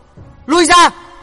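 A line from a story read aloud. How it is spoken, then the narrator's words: Shout. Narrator (Vietnamese): Trong tiếng hét đó thì Hắc Yêu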